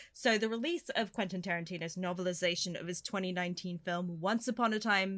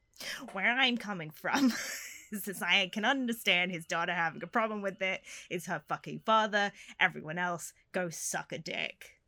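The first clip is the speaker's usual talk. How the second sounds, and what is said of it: Imitates another person's voice. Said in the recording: “do a Tarantino impression.”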